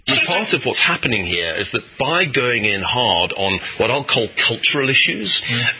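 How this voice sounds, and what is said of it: British accent. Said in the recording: “they have a British accent.”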